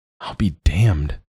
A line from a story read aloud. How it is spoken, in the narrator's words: Joel whispered, hushed